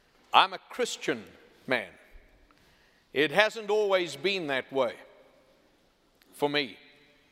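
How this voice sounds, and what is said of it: Southern American accent. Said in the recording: “this southern accent of mine”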